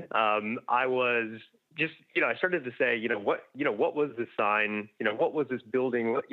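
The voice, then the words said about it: American accent. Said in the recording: “I'm obviously from the accent, you can tell I'm American”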